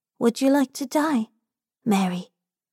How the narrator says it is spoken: Robin whispers

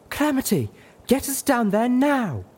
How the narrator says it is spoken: She screamed

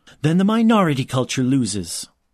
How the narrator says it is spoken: his mother snapped, her control finally breaking

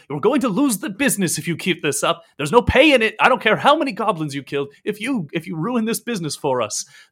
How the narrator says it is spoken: the shepherd turns back to him and like snaps him and says

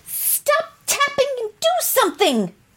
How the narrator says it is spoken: shouted Jill

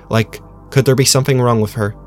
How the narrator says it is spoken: Ant snorted

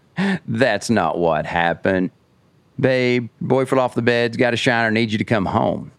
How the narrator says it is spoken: gets this creepy laugh and he goes

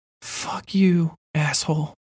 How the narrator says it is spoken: I whispered

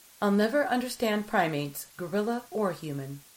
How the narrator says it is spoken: Kais said

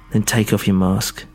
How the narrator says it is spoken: said, her voice quivering slightly

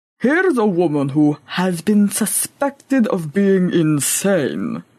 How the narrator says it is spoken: grumbled aloud

